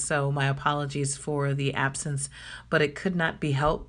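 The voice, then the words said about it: Scratchy voice. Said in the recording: “If you can tell by my voice, I got a real, real serious hit of spring allergies ... as scratchy as my voice is right now, it's a whole lot better”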